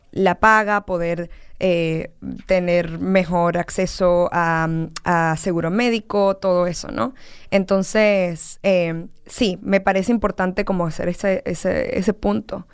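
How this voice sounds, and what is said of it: Distinctive regional accent. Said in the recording (Spanish): “un acento muy particular”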